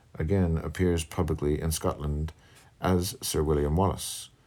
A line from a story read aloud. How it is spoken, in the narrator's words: added the stranger, lowering his voice